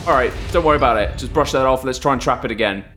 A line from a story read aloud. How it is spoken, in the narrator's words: Chuck shouts